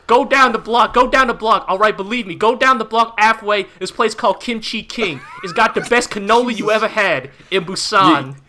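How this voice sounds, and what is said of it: Bad put-on New York accent. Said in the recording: “we're doing extremely bad New York accents”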